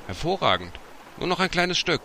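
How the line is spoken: Called out. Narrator (German): die Stimme rief

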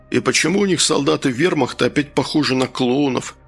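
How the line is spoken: Sighing. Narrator (Russian): Конрад вздохнул

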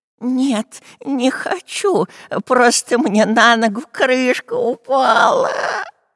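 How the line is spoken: Groaning. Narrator (Russian): простонал Дырка

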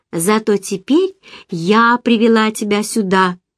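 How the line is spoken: Calm conclusion. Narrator (Russian): спокойно заключила я

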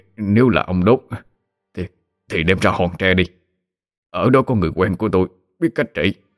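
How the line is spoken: Stammering. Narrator (Vietnamese): Danh Sô ấp úng

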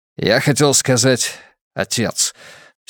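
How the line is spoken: Loud sigh. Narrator (Russian): сержант шумно вздохнул

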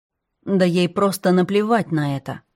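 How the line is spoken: Cold but calm. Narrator (Russian): договорила Зоя, холодно, но спокойно

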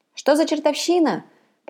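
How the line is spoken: Shout. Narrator (Russian): прокричал Грэхэм

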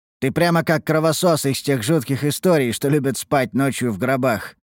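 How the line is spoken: Snorting remark. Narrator (Russian): хмыкнул

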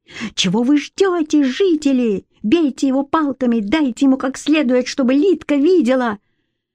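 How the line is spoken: Shouting, splashing water. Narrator (Russian): Закричал, брызгаясь водой

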